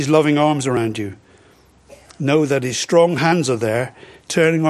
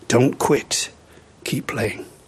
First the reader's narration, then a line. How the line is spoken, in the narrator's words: the voice of the Master whispering in your ear